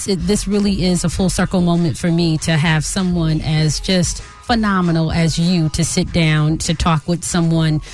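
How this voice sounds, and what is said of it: New Jersey accent. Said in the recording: “originally from Jersey City, New Jersey... They can hear it in that accent.”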